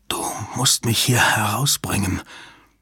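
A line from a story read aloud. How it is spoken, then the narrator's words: Breathless panting. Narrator (German): keuchte er atemlos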